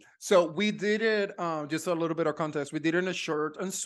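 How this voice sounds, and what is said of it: Usual voice. Nothing is said of it.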